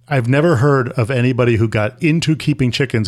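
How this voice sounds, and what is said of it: Usual voice. Nothing is said of it.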